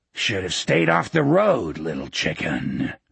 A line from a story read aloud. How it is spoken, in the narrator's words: Elroy grunted